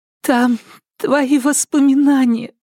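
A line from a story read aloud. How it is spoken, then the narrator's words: Girl sobbing. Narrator (Russian): всхлипнула девочка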